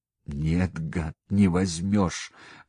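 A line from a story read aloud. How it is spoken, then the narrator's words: Hoarse wheeze. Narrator (Russian): прохрипел он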